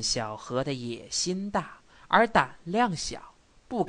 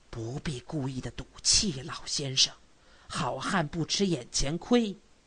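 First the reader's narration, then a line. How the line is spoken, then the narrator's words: Low voice. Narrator (Chinese): 白巡长低声地说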